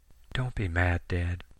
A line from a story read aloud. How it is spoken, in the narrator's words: Sammy whispered over the receiver